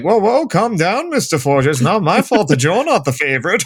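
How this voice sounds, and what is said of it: Imitates another person's voice. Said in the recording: “That was too good of an impression of his voice... That was accurate.”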